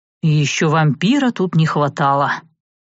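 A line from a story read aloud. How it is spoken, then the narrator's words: Through gritted teeth. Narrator (Russian): процедил Савелий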